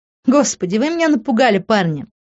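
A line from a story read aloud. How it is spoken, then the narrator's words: Breathless startled laugh. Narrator (Russian): рассмеялась она, прижимая руку к быстро вздымающейся груди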